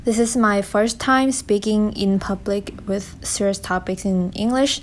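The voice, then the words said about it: Thai-accented English. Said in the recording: “I am Thai from Thailand. As you can tell from my accent, it's kind of weird.”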